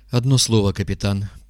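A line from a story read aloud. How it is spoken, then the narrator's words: Trembling voice. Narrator (Russian): проговорил он дрожащим голосом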